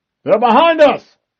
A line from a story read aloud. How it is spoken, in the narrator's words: yelled